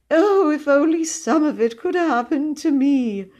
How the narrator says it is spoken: breathed his confidant

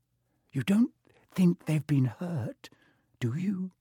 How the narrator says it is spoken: whispered Hermione

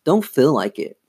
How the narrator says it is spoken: Lindsay muttered

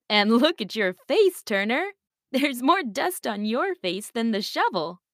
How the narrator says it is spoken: his auntie laughed

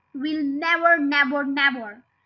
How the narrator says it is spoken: cried Bogus

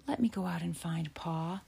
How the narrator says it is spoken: Laura whispered

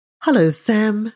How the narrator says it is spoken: she said brightly

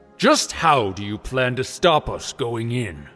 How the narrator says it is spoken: Another Goron growled angrily

